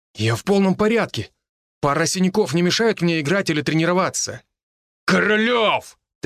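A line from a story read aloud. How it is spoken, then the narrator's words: Roar dropping to near-whisper. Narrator (Russian): Тренер вдруг взревел, как дикий зверь, а для следующей фразы понизил голос почти до шепота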